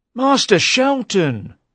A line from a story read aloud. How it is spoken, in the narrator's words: cried Lawless